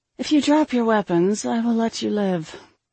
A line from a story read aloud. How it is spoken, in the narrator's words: I sighed with annoyance